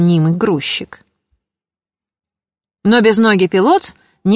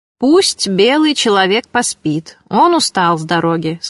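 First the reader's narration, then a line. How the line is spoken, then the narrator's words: Plain. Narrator (Russian): сказал обманщик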